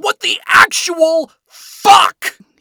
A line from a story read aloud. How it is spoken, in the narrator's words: He screamed